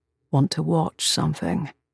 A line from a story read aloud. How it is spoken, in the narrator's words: He murmured into my hair